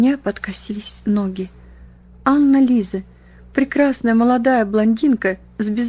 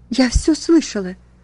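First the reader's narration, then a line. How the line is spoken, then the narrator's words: Sobbing. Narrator (Russian): Катрин разрыдалась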